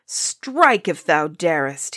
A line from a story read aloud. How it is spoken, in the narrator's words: cried